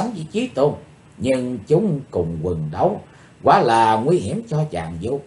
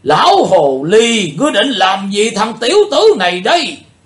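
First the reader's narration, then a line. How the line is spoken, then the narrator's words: Old man, loud roar. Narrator (Vietnamese): Lão tà gầm to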